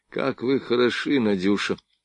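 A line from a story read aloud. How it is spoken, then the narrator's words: Barely audible, agitated. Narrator (Russian): чуть слышно от волнения проговорил он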